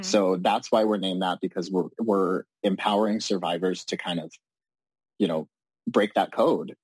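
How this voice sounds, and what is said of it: Shaky, emotional voice. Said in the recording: “my voice is a little shaky. It's always emotional when we talk about this”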